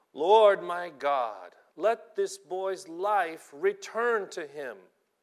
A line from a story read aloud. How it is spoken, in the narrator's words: cried out to the Lord